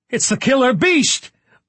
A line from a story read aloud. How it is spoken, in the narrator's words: Waters cried loudly